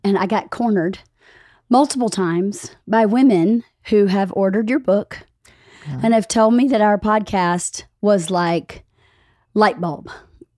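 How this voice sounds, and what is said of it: Squeaky voice from a cold. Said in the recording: “I'm recovering from a cold, so forgive my squeaky voice.”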